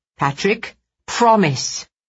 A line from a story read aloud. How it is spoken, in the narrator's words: she said in her sternest voice